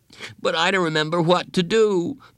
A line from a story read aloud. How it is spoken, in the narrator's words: Bradley whined